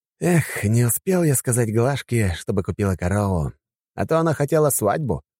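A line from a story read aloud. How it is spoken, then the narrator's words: Sighing. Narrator (Russian): вздохнул Лермонтов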